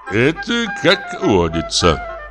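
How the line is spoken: Agreeing with a laugh. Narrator (Russian): согласился член управы и тоже засмеялся

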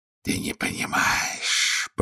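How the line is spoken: Hiss. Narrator (Russian): прошипел колдун

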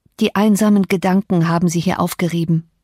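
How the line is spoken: Plain. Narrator (German): sagte ich

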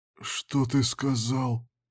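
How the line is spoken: Sudden hoarse question. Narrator (Russian): спросил внезапно хриплый голос

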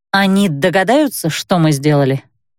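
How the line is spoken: Uncertain question. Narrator (Russian): неуверенно спросила я

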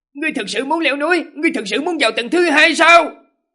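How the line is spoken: Terrified loud cry. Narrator (Vietnamese): Do Hiền khiếp sợ thất sắc lớn tiếng hô lên

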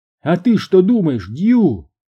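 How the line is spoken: Shout. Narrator (Russian): крикнула Маргарет

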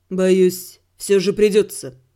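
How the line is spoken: Soft, insinuating. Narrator (Russian): вкрадчиво сказал

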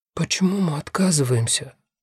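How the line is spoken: Whispered question. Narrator (Russian): шепотом спрашивает Виола

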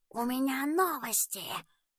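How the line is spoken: Soft velvety whisper. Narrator (Russian): прошептал мягким бархатистым голосом

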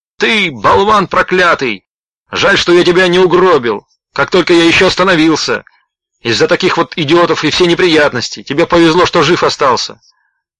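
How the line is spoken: Angry shouting. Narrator (Russian): Водитель машины, которая едва не сбила Слоуна, закричал

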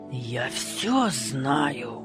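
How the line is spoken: Angry suppressed hiss. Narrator (Russian): Злобно шипела она, не осмеливаясь громко кричать в передней

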